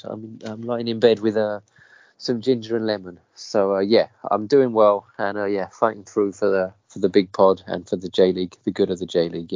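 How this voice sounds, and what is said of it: Congested, stuffy voice. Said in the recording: “might not be that recognisable a voice, seeing as I've got a bit of a cold.”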